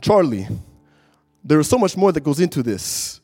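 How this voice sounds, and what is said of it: Imitated Brazilian accent. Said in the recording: “in his Brazilian accent”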